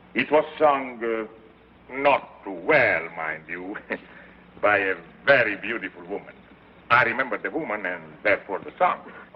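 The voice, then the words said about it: Speaks with a foreign accent. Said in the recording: “without my accent, you would all think me a cowboy ... Oh, even with the accent.”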